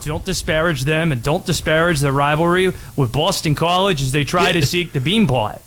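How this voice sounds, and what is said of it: Put-on Boston accent. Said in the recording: “Is that you trying to do a Boston accent?”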